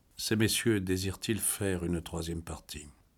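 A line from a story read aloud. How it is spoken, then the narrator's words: Stiff, indifferent, neutral question. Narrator (French): Toujours raide et indifférent, il demanda d'une voix neutre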